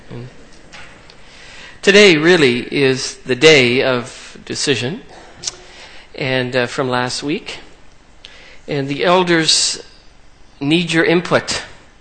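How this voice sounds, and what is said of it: South Carolina accent. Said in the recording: “my South Carolina accent”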